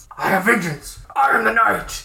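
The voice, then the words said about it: Batman voice impression. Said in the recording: “do the voice ... I want to do the voice”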